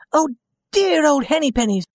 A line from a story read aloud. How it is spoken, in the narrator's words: she cried